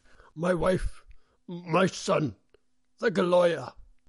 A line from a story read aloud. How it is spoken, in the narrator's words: he shouted